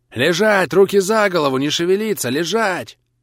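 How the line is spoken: Group yelling. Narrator (Russian): заорали они

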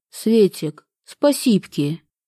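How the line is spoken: Quiet, hoarse, tired. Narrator (Russian): произнес негромко, чуть осипшим от усталости голосом

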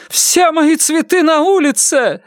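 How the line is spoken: Shouted. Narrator (Russian): закричала Ленор

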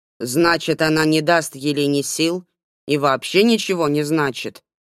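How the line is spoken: Sullen muttering. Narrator (Russian): угрюмо пробурчала Кейра

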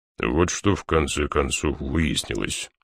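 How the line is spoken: Muffled flat voice. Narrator (Russian): продолжил ГМ глухим невыразительным голосом

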